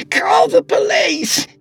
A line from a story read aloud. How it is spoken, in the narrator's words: she yelled